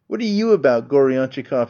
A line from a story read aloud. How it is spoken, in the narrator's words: cried